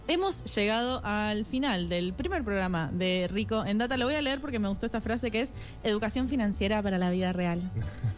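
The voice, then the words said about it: Announcer-style radio voice. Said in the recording (Spanish): “¿Por qué con esa voz? ... Porque es la voz de locutora.”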